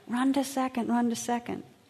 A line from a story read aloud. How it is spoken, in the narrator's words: Everyone yelled even more